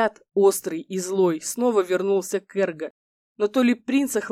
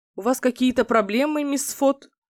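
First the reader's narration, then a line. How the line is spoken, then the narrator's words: Surprised question. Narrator (Russian): удивленно спросил Лейхард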